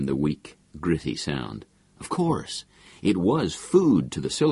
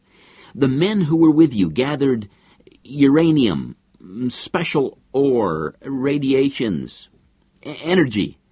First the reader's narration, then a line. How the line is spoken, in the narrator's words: He said to the silicone, shouting his words as though to make his thoughts clearer